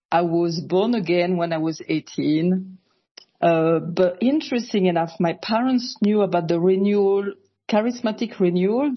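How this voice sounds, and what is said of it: French accent. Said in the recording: “originally I'm from France, so sorry for my accent”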